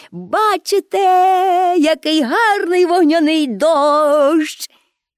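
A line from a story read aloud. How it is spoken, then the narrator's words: Shouted. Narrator (Ukrainian): крикнула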